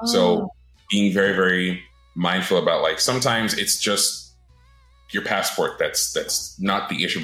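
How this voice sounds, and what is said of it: North American accent. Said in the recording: “my accent sounds North American”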